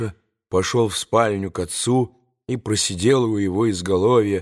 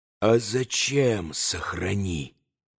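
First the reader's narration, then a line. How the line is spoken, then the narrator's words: Spiteful whisper. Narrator (Russian): все тем же шепотом продолжал Иван, злобно скривив лицо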